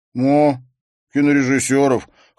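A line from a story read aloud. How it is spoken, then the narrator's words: Amused snort. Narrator (Russian): хмыкнул Эндрю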